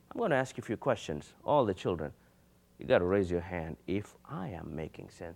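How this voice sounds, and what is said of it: Speaks with a noticeable accent. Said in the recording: “even though I have an accent”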